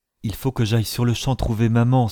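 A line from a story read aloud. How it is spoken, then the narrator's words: Exclaimed. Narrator (French): s'écria-t-elle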